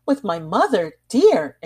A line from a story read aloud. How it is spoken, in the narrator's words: exclaimed the young girl